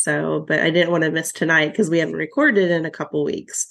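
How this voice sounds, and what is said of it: Nasal, congested voice. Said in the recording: “I'm still like very nasally, so my voice is a little different”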